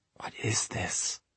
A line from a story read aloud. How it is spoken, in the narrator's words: she said in a whisper